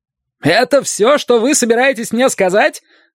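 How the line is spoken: Distraught shout. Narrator (Russian): закричал Глессон с исказившимся лицом

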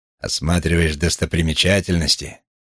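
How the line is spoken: Snorting. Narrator (Russian): хмыкнул он

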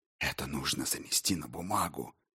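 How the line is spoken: Whisper. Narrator (Russian): шептал он

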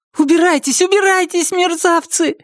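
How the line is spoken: Shouting. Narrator (Russian): закричала Триша

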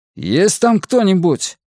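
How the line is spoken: Shouted. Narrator (Russian): крикнул он

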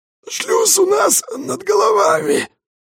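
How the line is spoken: Hoarse wheeze, spitting blood. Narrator (Russian): прохрипел Костет, сплевывая кровь

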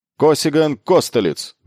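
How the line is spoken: Military instructor shouting. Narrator (Russian): выкрикнул их имена очередной военный инструктор

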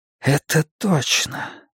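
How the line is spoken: Whisper. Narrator (Russian): прошептал он

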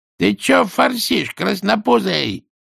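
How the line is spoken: Boss shouting. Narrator (Russian): крикнул Скукину начальник

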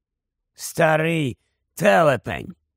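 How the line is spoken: Grumbled. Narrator (Ukrainian): буркнув Еберфорс

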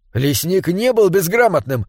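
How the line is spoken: Exclaiming. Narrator (Russian): воскликнул он

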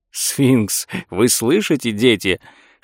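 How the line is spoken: Laughing whisper. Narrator (Russian): шептал и смеялся Лео Ауфман

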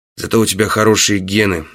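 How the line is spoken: Low voice. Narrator (Russian): вполголоса сказал я

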